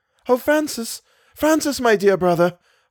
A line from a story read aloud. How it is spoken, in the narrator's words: I cried